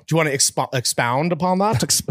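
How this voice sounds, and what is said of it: Put-on mid-Atlantic accent. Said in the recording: “You're talking like you're in LA. ... this accent, this Atlantic accent”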